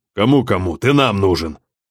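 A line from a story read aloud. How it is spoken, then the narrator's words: Angry grumble. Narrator (Russian): Сердито буркнул Белкин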